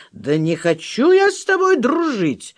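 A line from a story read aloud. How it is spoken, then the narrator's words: Cried out. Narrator (Russian): вскрикнул Петров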